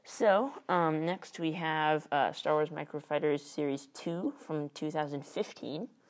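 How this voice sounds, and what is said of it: Slightly strange, altered speech. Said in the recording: “you may notice my voice... it's because I have a retainer... My voice is a little strange... it's just a little bit strange”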